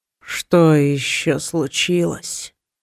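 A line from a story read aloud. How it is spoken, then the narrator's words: Sleepy drawl from afar. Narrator (Russian): сонно протянул кто-то из глубины комнаты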